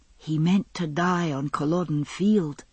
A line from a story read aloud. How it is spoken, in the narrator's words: Roger whispered